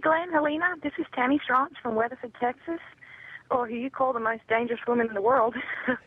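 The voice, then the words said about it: Distinctive regional accent. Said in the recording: “she has that great accent. She really does.”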